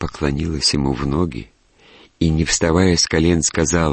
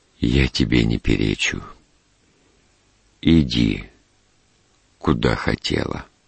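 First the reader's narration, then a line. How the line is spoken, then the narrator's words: Quiet speech. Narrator (Russian): тихо сказал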